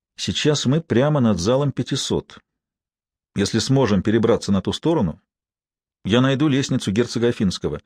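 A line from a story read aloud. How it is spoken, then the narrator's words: Quiet. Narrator (Russian): Лэнгдон тихо проговорил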